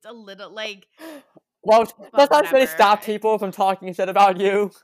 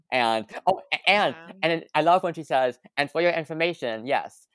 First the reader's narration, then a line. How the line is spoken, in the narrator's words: Gavin stutters in bed